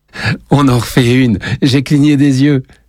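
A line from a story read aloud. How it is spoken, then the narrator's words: Exclaiming. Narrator (French): s'exclame Lenny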